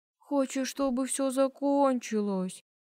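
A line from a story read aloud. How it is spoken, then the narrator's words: Feigned sad young man. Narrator (Russian): Наигранным грустным голосом заговорил парень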